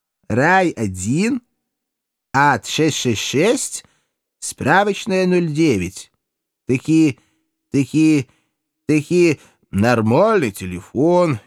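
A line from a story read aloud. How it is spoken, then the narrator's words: Slow drawl. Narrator (Russian): неторопливо протянул Иван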